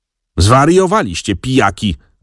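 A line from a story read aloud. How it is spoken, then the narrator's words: Aunt shouting. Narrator (Polish): krzyknęła ciotka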